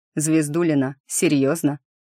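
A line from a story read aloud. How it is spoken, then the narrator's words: Grunting smirk. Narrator (Russian): хмыкнул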